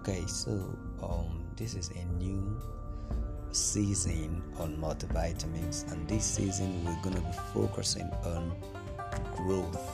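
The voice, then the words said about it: Low, tired-sounding voice. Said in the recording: “it's very late, so my voice is kind of down.”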